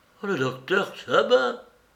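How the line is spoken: Breathless whisper. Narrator (French): fis-je dans un souffle

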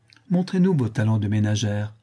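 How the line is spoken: Laughing. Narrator (French): dit-elle en riant

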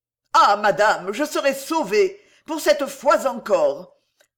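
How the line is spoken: Joyful exclamation. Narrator (French): s'écria Claudine, dont les yeux étincelèrent de joie

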